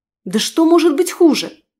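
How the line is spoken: Nervous exclamation. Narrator (Russian): нервно воскликнула

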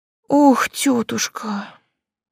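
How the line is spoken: Moaning. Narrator (Russian): простонала я

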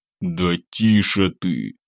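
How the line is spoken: Seething, through gritted teeth. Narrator (Russian): процедил я, закипая от ее показательного нежелания держать рот на замке

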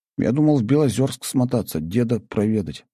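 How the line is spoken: Sigh. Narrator (Russian): вздохнул я

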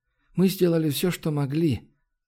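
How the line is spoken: Heavy sigh. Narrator (Russian): он тяжело вздохнул

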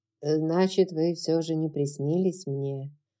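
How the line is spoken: Muffled, colorless voice. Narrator (Russian): произнес своим глуховатым, бесцветным голосом

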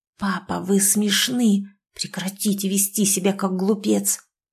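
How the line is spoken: Hiss. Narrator (Russian): прошипела

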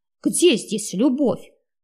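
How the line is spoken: Indignant. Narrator (Russian): возмущенно закончил

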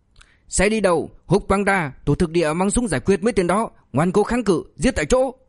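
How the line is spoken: Furious shout. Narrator (Vietnamese): Tổ trưởng Quách mắt trợn muốn tét ra quát

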